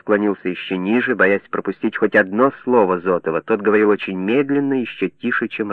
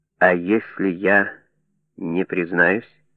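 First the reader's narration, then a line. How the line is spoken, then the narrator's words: Slow, barely audible. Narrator (Russian): Зотов говорил медленно, чуть слышно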